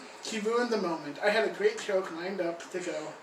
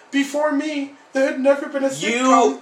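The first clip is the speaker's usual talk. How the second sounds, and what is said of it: Poor Jerry Seinfeld impression. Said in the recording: “You do not do a good Jerry Seinfeld impression.”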